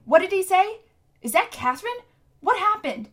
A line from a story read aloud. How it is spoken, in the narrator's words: Tom was cupping his hands to his ears and shouting